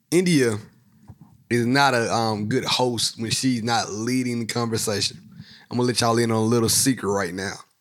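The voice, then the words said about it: Hoarse, strained voice. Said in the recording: “Sometimes I choke ... my voice is not where it needs to be tonight ... I was coughing and I'm trying to get over this voice, this hoarse issue”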